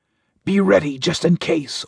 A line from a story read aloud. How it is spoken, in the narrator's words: Orak whispered